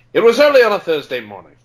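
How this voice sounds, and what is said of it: Put-on mid-Atlantic accent. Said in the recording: “Sorry, no British accent, I know. ... That was more mid-Atlantic than British. ... Actually, that was a good mid-Atlantic.”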